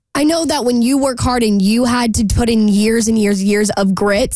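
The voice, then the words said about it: Strained, failing voice. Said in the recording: “my voice is giving out today.”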